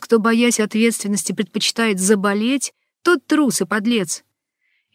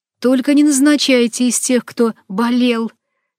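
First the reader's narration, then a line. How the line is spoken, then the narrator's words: Plain. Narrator (Russian): я сказала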